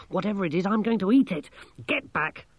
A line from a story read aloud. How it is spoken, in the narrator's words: Masklin snapped